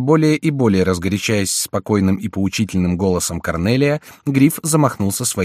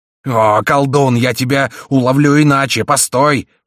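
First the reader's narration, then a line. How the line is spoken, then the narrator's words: Roaring. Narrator (Russian): проревел Гриф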